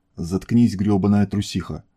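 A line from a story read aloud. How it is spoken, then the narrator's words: Growling aloud. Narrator (Russian): Прорычала она вслух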